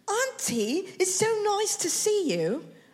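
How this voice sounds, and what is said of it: Put-on British accent. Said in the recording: “She had a graduation in the UK ... Nice accent.”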